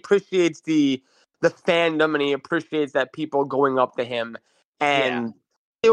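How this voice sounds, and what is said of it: Usual voice. Nothing is said of it.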